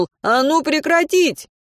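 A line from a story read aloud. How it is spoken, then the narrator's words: Shouted. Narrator (Russian): Мартин крикнул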